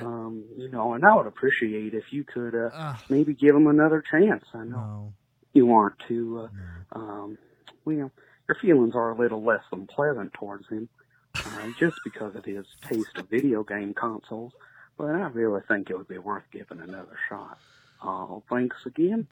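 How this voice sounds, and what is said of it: Bad fake Southern accent. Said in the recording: “That is the worst. That is the worst Southern accent I've ever heard in my life... It's pretty bad.”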